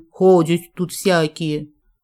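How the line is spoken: Indignant. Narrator (Russian): возмутилась

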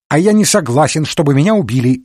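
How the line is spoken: Exclaimed. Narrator (Russian): воскликнул Жюв

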